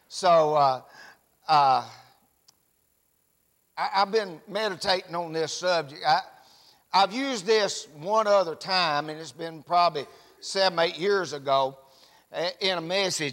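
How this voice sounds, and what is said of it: Rural Tennessee Southern accent. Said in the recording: “I know you're from Tennessee, but your accent's a little different ... up in Smith County ... I knew your accent was different”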